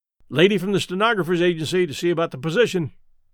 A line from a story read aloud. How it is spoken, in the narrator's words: said Pitcher